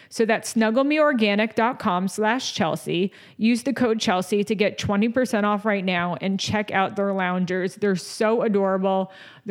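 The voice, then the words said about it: Out of breath, breathless speech. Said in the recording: “Oh my God, I'm out of breath. ... I'm already out of breath. I'm out of breath. ... I had to chug water.”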